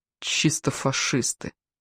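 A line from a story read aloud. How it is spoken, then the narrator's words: Mutter. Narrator (Russian): пробормотала рядом Ева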